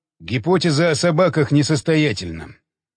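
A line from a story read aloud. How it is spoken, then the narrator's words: Muttered. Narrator (Russian): пробормотал Уилсон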